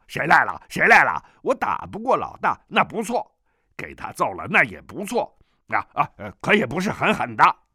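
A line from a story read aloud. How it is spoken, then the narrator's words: Angry. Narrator (Chinese): 南海恶神怒道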